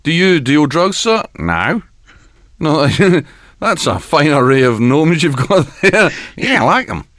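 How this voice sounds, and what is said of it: Put-on New Zealand accent. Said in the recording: “That's my New Zealand. ... Accent.”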